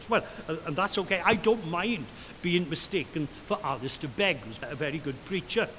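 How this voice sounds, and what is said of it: Welsh accent. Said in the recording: “my accent ... a Welsh accent”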